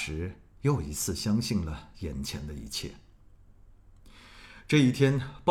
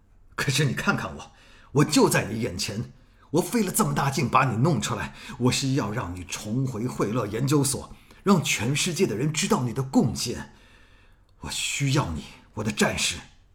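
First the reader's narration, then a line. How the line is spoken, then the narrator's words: Angry. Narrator (Chinese): 黑衣人发怒了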